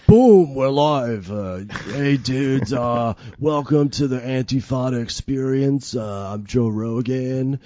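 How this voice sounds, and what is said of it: Poor imitation of another person's voice. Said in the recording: “Joe Rogan impression ... That's not what he sounds like.”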